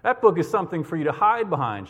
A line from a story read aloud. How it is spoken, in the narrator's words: Shepherd said